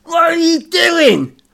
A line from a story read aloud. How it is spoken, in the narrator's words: Bernie yelled